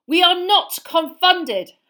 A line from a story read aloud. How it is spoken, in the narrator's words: Harry roared